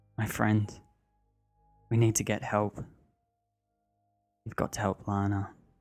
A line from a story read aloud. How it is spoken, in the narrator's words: Elise calmly saying